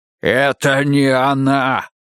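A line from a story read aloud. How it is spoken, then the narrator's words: Growl. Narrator (Russian): прорычал он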